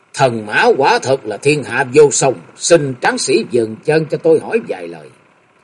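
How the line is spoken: Smiling. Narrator (Vietnamese): mỉm cười nói

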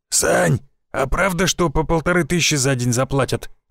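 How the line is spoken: Hoarse question. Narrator (Russian): спросил хриплый голос

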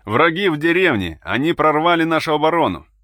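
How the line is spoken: Loud shouting. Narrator (Russian): Громко кричал командир машины

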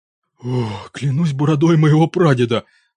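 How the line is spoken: Breathless genuine delight. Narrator (Russian): выдохнул наконец, и в его голосе слышался неподдельный восторг

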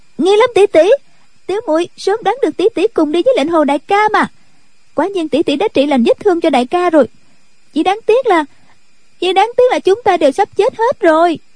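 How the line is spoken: Loud young girl. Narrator (Vietnamese): cô bé liền lớn tiếng nói

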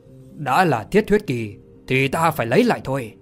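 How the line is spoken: Cold laugh, then angry. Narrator (Vietnamese): Thạch Kiếm cười nhạt rồi giận dữ mà nói

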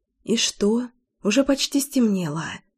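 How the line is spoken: Whisper. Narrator (Russian): шептала моя слабость и зависимость

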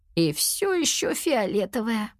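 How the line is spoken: Sad reply. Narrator (Russian): грустно отозвалась Кира

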